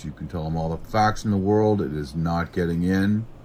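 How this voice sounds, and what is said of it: Boston accent. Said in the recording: “Boston accent”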